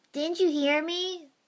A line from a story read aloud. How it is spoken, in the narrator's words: the boy shouted